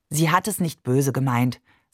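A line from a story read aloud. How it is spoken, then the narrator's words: Said gently. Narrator (German): sagte Barbe sanft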